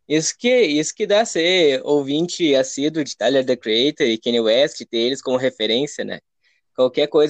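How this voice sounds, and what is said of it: Rio Grande do Sul Portuguese accent. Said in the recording (Portuguese): “esse teu sotaque aí, tu é de onde ... Alvorada do Rio Grande do Sul ... região metropolitana de Porto Alegre”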